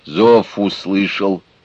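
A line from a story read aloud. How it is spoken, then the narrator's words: Grim, rough. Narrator (Russian): мрачно и грубо ответил Саша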